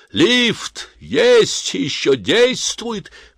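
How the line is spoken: Shouting from afar. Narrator (Russian): крикнул он еще издали

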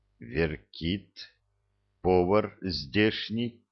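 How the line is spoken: Muffled reply. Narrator (Russian): глухо ответил тот

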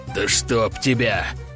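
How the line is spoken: Hissed. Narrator (Russian): прошипел Громов

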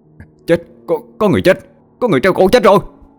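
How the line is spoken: Panicked scream. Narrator (Vietnamese): một người nào đó hốt hoảng hét lên

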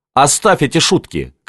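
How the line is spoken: Shouted, paling. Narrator (Russian): крикнул он бледнее

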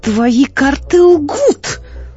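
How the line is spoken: Exclaiming. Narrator (Russian): воскликнула

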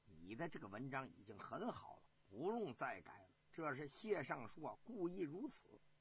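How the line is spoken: Sly smile, low voice. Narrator (Chinese): 王仆射啊诡秘的笑了笑，低声的说

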